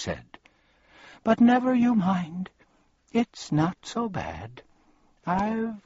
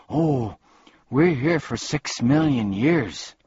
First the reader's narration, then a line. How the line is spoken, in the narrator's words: sighed Milo